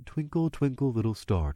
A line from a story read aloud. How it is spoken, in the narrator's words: in the most calm, musical voice I could muster